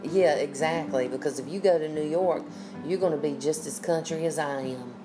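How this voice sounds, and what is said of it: Southern US accent, North Carolina. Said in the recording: “I am proud to have this accent because it is a part of who I am ... I love having the accent”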